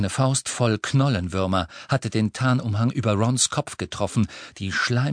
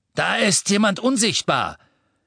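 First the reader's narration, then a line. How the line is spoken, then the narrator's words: Masked man calling. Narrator (German): rief ein maskierter Todesser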